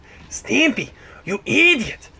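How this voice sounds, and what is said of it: Cartoon character voice impression. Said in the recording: “you hear Ren say, "You idiot!" ... Oh, that was a good imitation.”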